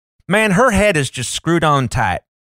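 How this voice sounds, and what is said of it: Caricatured, inaccurate Southern accent. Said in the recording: “I love when you try to do a Southern accent, because as someone who grew up in Alabama with truly Southern family, you do not get it right. ... It's a caricature.”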